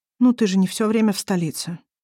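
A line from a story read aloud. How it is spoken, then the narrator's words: Sighing. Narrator (Russian): вздохнула Арай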